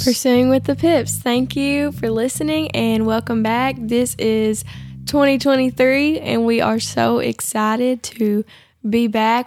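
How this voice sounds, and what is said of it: Voice still slightly sick-sounding. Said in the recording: “I've been sick. You can probably still hear it in my voice a little bit, but I have not had a voice for a while.”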